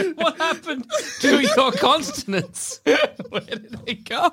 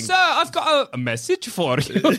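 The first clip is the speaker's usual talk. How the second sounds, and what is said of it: Put-on Dutch American accent. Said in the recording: “It's a Dutch accent. ... he's speaking with a Dutch American accent.”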